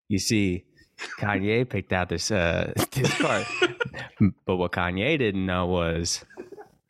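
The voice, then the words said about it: Imitates another person's voice. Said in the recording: “that's a pretty good cootie accent.”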